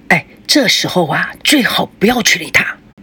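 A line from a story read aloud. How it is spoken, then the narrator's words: Hushed voice. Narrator (Chinese): 孙正尽量地将声音放小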